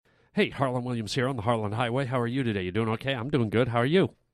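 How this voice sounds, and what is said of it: Talking very fast. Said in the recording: “Why am I talking so fast? It's as if I'm trying to speed through this podcast.”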